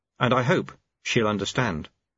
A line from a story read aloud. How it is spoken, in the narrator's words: said Lobsang earnestly